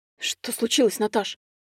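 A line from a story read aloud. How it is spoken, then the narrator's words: Bewildered babbling. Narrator (Russian): лепетал вмиг обескураженный парень, никогда не слышавший от нее грубого слова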